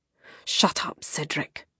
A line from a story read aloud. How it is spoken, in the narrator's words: a voice hissed